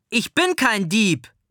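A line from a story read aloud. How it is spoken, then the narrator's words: Sudden scream. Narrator (German): schreit Ben plötzlich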